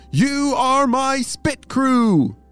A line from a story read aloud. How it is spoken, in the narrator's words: shouted Apollo